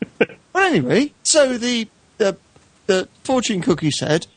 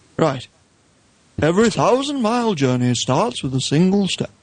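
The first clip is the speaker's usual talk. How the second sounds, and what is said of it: Imitates another person's voice. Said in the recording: “do my impression ... Is that Alec Guinness again? ... It's a very good voice, mate. I'm not sure it's Alec Guinness's”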